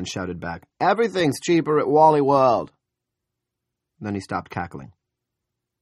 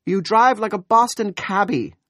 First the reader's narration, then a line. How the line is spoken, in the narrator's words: Julia said indignantly